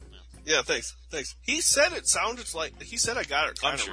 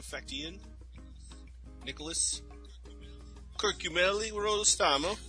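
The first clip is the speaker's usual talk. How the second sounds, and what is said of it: Put-on Canadian accent. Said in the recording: “That's a good Canadian accent you had ... I was doing a hockey accent.”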